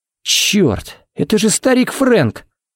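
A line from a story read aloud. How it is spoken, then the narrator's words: Breathless exclamation. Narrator (Russian): выдохнул Харри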